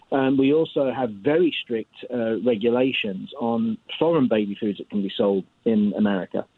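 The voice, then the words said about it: British accent. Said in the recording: “the accent, I don't put this on to impress the kids. I'm actually from Europe, from the UK.”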